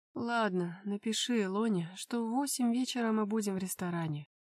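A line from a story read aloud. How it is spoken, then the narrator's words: Lazy. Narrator (Russian): лениво произнес я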